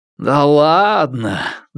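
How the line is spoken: Long sad sigh. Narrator (Russian): длинно вздохнул Вудров и закручинился

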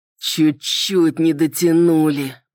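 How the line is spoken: Groaning. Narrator (Russian): простонал Салливан

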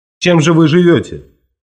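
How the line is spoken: Sharp question. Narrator (Russian): он тогда резко спросил

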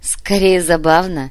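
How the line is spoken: Laughing. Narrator (Russian): позволила себе рассмеяться Фата

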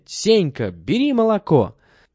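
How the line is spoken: Shout. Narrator (Russian): Митя крикнет

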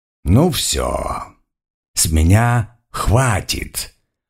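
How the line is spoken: Hiss. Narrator (Russian): прошипел кто-то

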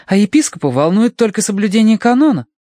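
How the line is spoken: Indignant woman. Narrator (Russian): возмущенно делилась она с мистером Данворти

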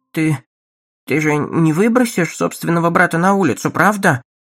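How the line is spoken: Faltering murmur. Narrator (Russian): пролепетала мать

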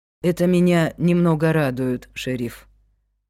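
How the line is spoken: Tired. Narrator (Russian): устало сказал директор

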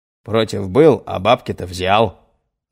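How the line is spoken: Angry snarl. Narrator (Russian): зло ощерился Нестеров

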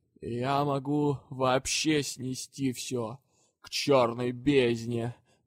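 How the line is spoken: Gloomy threatening spirit. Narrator (Russian): мрачно угрожал вечно несговорчивый дух

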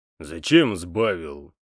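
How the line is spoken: Grumbled. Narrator (Russian): буркнул Хуга

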